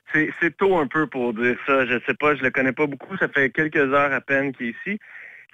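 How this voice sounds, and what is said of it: Lilting regional French accent. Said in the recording (French): “un petit peu d'accent chantant de là-bas”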